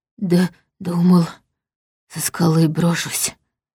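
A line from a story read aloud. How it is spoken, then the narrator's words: Hoarse rasping. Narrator (Russian): хрипел он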